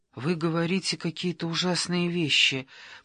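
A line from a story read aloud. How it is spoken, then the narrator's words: Mumble. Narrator (Russian): пробормотала она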